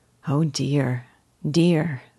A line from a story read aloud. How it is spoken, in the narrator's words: said Dolly, in a grieved voice, as if she were hearing an unfavorable report of a sick man's case